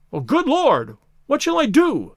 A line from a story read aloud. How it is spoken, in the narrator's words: cried the stranger, in an ecstasy of despair